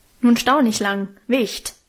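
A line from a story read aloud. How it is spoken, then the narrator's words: Big man snapping gruffly. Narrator (German): schnauzte mich einer der großen, rußgeschwärzten Männer an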